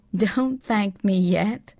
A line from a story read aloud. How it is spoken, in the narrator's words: replied Elizabeth McCabe with a small laugh